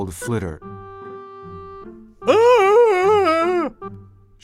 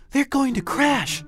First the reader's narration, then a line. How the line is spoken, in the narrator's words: gasped Stella Luna